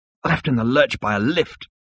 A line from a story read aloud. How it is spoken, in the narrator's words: muttered Seyfried, who was feeling at his least jaunty